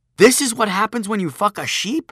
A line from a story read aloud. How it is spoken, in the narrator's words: I exclaimed